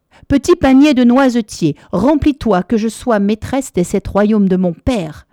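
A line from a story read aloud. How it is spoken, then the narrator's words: Screaming, king's daughter. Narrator (French): hurla la seconde fille du roi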